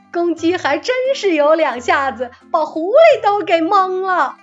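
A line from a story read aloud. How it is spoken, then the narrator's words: Group laughing. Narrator (Chinese): 田野里干活的人们不禁大笑道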